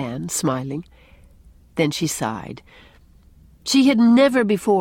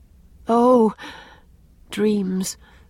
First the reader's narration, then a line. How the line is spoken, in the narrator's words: sighed Anne